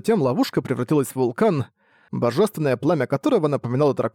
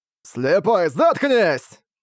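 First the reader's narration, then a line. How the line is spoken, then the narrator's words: Furious shout. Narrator (Russian): прокричал мясник, всем сердцем желая разрубить старика напополам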